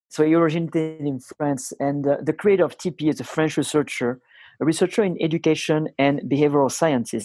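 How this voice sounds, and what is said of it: Thick foreign accent. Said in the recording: “my accent is too thick”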